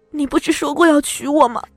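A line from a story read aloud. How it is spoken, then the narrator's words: Crying question. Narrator (Chinese): 我哭着问他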